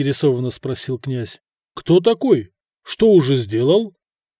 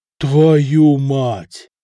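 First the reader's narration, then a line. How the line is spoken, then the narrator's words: Exhaled exclamation. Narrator (Russian): Выдохнул Самослав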